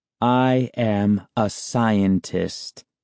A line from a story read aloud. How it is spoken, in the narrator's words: my uncle replied slowly, speaking each word clearly and distinctly